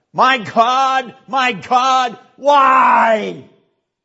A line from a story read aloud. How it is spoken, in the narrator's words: He who screamed out of his suffering